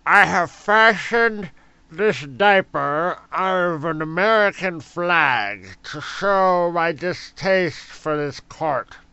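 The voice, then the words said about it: Imitates another person's voice. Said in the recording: “my Larry Flint impression ... It almost sounds like Dirty Yoda. ... With smacks of Woody Harrelson in there,”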